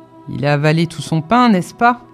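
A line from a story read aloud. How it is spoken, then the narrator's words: Sister exclaiming. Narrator (French): s'écria ma sœur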